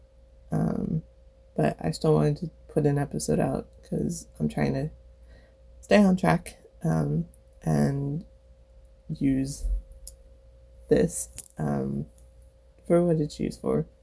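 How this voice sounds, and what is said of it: Sick-sounding voice. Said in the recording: “physically sick ... sorry for my voice ... coughing”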